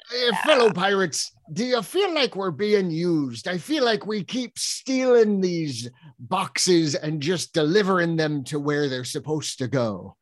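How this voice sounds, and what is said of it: Put-on Scottish pirate accent. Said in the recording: “judging by your accent, we're from Scotland ... I stole the accent ... We're Scottish pirates”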